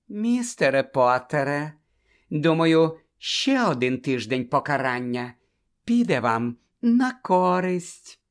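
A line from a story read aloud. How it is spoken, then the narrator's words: Unctuous sugary voice. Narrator (Ukrainian): єлейним голосом повідомила професорка Амбридж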